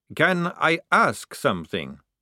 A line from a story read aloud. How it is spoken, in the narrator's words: said Maledict